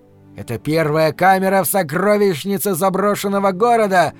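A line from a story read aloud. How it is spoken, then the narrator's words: Loud yell. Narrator (Russian): завопил он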